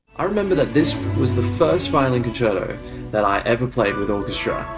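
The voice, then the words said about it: Australian accent. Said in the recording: “he's activated his Australian accent”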